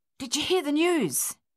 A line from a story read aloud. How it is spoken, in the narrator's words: he panted heavily